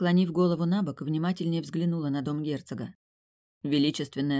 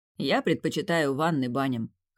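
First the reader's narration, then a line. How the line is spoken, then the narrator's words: Man's amused snort. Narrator (Russian): хмыкнул мужчина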